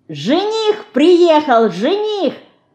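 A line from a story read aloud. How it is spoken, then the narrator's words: Shouting. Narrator (Russian): крикнула Динка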